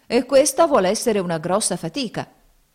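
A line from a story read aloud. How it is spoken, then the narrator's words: Grumbling. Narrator (Italian): brontolavano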